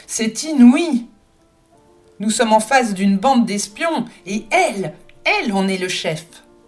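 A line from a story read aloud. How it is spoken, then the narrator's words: Yelled. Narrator (French): il hurla à son adresse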